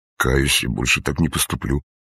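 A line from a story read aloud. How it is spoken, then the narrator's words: Muttered. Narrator (Russian): пробормотал Лыков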